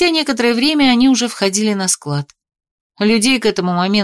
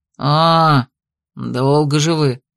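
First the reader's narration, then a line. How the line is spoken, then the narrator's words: Man grumbling. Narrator (Russian): Проворчал мужчина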